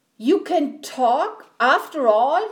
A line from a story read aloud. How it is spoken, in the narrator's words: he cried